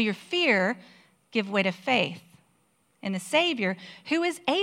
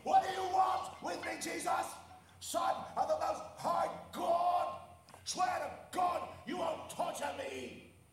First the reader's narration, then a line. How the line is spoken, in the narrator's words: he shouted at the top of his voice